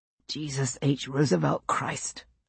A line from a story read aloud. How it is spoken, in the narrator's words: I said under my breath